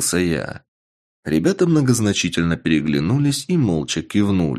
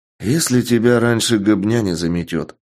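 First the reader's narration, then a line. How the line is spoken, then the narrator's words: Gloomy remark. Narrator (Russian): мрачно заметил Андрей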